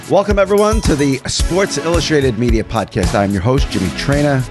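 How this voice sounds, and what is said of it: Sick, under-the-weather voice. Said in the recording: “You can probably hear it. Not sounding great. A little under the weather. Been sick for a couple of weeks ... Sorry about my voice”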